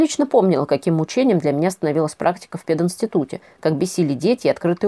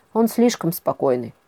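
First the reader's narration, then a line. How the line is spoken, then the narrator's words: Sighing. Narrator (Russian): вздохнул Тигран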